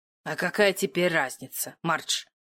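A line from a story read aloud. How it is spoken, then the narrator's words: Sullen grumbling woman. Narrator (Russian): Угрюмо пробурчала вторая женщина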